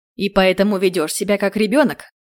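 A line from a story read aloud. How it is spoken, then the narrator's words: Growl from the doorway. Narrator (Russian): Прорычали с порога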